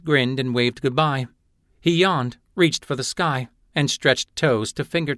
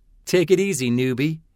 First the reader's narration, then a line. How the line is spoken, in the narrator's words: Raydan laughed